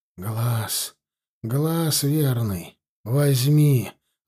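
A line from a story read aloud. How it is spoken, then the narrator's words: Wheezing, breathless. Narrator (Russian): выдохнул он, захрипев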